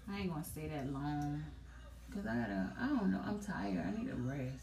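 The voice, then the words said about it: Raspy tired voice. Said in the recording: “I can tell like in my voice, it's like raspy. ... Like, it's really raspy.”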